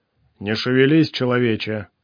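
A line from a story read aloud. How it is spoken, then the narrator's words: Deep rumbling bass. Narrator (Russian): Густым басом пророкотал человек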